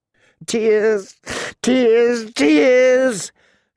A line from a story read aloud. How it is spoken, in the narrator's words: she sobbed hysterically